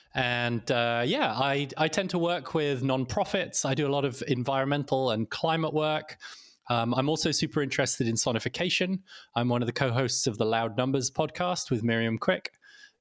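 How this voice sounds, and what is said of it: British accent. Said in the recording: “as you can probably hear from my accent, I'm originally British.”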